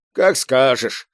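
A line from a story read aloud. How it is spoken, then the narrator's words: Resigned, doomed voice. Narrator (Russian): обреченным голосом произнес Киванов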